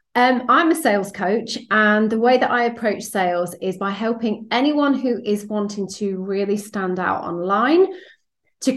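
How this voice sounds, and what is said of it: British accent. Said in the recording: “as you can probably tell from my accent, I'm based over here in the UK”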